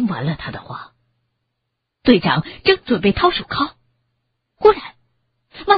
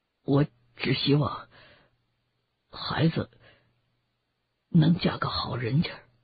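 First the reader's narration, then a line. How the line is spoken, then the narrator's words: Mumbling. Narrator (Chinese): 他喃喃的说着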